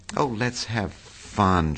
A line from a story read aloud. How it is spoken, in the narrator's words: she begged him